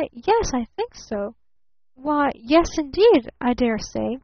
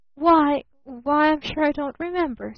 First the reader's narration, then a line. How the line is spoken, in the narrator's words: stammered her father